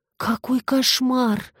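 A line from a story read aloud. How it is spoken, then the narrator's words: Breathy exclamation. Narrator (Russian): выдохнула одна из одинаковых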